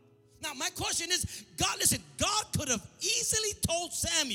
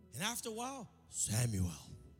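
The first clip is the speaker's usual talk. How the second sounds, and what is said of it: Deep, solemn voice of God. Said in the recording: “Why we always give God that tone of voice? ... I gotta be deep voice”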